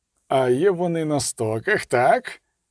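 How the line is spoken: Growled. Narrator (Ukrainian): загарчав Геральт

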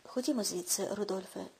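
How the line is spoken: Calm. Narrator (Ukrainian): спокійно сказав Бойлан

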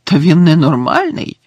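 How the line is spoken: Exclamation. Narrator (Ukrainian): вигукнув Гаррі

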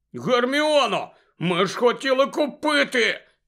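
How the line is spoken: Shouted. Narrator (Ukrainian): закричав Рон

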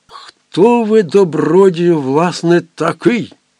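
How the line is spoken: Commandant exclaiming. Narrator (Ukrainian): вигукнув комендант

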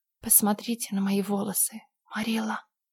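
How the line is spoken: Whisper. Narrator (Russian): прошептала она

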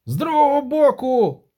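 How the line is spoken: Shrieking. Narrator (Ukrainian): заверещав Денті

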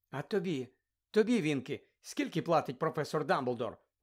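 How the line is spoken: Gentle question. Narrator (Ukrainian): лагідно запитала Герміона

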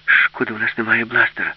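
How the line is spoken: Sighing. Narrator (Ukrainian): зітхнула Аліса

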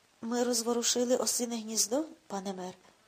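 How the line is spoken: Sad. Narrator (Ukrainian): сумно сказав Оттаман

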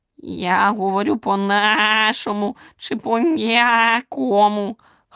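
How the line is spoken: Frog-creature's rasp. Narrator (Ukrainian): хрипнув жабун

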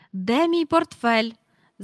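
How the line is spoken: Shouting. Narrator (Ukrainian): закричав містер Бенкс

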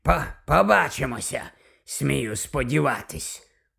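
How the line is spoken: Grumbled. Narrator (Ukrainian): буркнув Слизоріг

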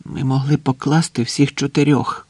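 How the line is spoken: Quiet. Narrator (Ukrainian): тихо сказав Агустін

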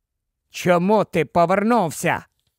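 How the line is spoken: Cold ghostly voice. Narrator (Ukrainian): промовляла примара Гаррі холодним голосом Волдеморта

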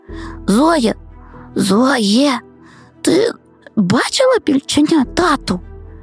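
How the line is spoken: Whisper in ear. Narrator (Ukrainian): прошепотів Лесик на вухо подрузі

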